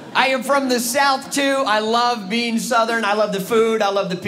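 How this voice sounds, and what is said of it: Usual voice. Nothing is said of it.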